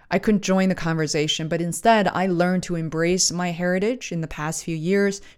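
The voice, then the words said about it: Speaks with an accent. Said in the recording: “embracing my accent, the words I don't know how to say or can't say it well or can't say it without struggling”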